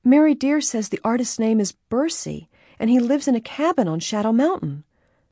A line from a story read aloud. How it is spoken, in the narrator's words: she cried out